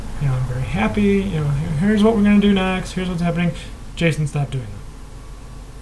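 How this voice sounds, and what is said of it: Upbeat teaching voice, then stern tone. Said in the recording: “in my teaching voice ... You can just say their name in a different tone ... change the flow or the cadence of your voice”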